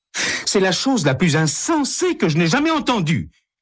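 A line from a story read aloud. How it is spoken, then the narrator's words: Exclaiming. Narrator (French): s'exclame Hélène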